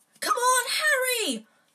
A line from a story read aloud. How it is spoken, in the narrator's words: Hermione screamed